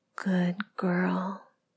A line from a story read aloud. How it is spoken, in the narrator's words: you whisper in my ear